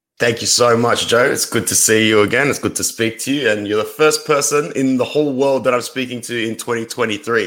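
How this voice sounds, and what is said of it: Australian accent. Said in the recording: “for those who can't tell from the accent, you're in Australia.”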